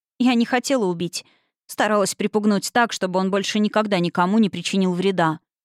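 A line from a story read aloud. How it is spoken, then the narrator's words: Plain. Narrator (Russian): ответила суккуба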